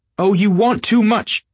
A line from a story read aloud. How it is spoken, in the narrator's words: she cried to Gatsby